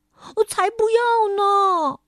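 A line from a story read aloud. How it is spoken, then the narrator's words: Baby bear shouting. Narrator (Chinese): 熊宝宝叫道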